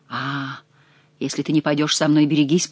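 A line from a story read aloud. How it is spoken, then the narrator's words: Threatening whisper. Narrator (Russian): прошептал он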